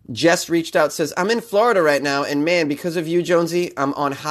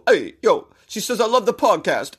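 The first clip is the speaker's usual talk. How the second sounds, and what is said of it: Put-on Long Island accent. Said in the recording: “I slipped into that Long Island accent or whatever you want to call it”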